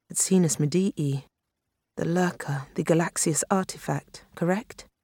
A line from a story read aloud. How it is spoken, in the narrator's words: Finney said gravely